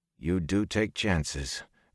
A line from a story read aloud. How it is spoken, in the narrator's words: Perrin breathed